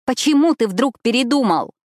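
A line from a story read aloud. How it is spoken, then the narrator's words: Shout. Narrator (Russian): крикнула я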